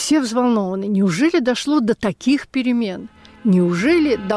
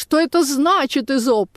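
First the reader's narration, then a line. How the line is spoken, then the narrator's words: Indignant shout. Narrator (Russian): кричит возмущенно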